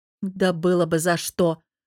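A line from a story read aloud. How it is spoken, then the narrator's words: Snorted. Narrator (Russian): фыркнула Аня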